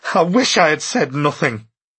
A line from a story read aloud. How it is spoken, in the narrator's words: He put his head in his hands and cried